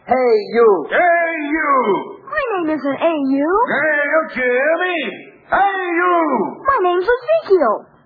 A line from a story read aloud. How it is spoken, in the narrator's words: easy and careless way they all had of shouting